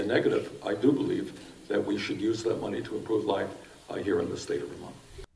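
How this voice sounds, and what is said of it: Brooklyn accent. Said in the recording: “that Brooklyn accent”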